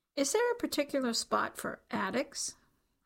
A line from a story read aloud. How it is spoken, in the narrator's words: The man laughed